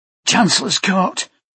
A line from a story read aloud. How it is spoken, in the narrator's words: Mikhail gasped